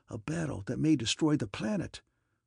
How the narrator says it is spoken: whispered the little engineer

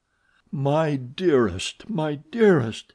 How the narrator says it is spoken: he moaned

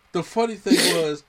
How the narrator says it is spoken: my son laughed

